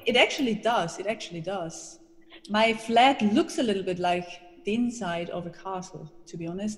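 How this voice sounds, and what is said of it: Austrian accent in English. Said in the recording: “you might hear it from my accent,... I am Austrian”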